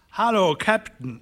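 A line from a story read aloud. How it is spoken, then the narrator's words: Calling out. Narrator (German): rief er Dyke zu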